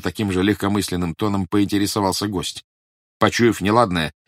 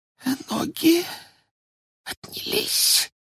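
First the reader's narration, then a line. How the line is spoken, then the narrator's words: Frightened whisper. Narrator (Russian): прошептал Ларионов, испуганно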